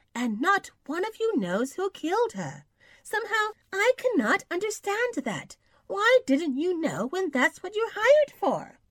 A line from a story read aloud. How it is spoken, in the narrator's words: feelingly exclaimed